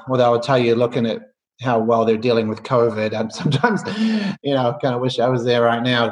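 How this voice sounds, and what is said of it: Softening New Zealand accent. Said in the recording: “you can probably tell by the accent, or I think it's softening, but I grew up in New Zealand”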